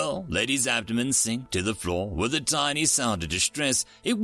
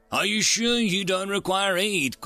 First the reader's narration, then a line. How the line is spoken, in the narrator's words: Kulcht asked uneasily